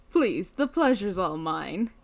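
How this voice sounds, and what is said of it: Deeper character voice. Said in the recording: “I guess this is my character voice now ... it's going to essentially become a deeper me.”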